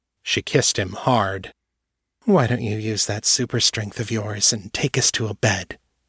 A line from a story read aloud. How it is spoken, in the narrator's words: she purred